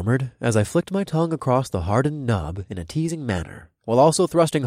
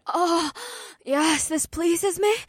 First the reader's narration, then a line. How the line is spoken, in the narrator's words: May whimpered